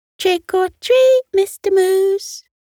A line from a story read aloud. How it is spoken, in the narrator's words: a squeaky voice on the other side chiming